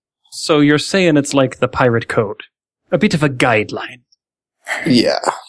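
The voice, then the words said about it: Pirate character voice. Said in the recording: “my pirate impersonation.”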